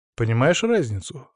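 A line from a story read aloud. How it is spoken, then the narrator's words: Calm question. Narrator (Russian): спросил я спокойно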